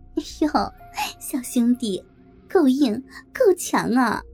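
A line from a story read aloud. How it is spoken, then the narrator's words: Flirtatious laughing. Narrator (Chinese): 梅姐浪笑着说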